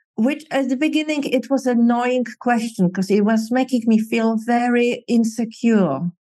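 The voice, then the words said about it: Non-native English accent. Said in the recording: “because of my accent”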